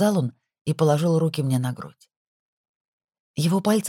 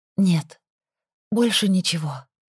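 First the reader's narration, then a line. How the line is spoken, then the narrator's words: Breathless exhale. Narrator (Russian): выдохнула я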